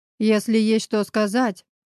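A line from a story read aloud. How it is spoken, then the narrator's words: Growling. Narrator (Russian): прорычал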